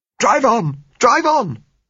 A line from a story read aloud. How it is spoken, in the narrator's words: said Josella hysterically